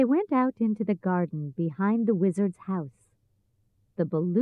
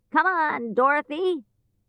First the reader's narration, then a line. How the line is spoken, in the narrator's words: he shouted